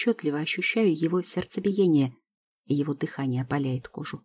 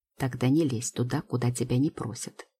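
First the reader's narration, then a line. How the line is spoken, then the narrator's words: Icy, curt. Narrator (Russian): ледяным тоном отрезает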